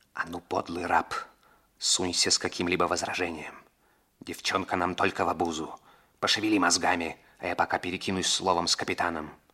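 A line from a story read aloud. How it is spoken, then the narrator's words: Whispered. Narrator (Russian): Раморни шепнул Двайнингу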